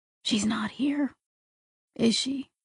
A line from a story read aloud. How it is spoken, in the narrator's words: Jane whispered